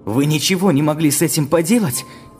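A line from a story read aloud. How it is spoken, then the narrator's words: Exclaiming. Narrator (Russian): воскликнул Валерий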